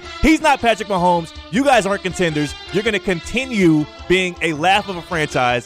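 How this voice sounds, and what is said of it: Yelling. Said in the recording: “I'm yelling”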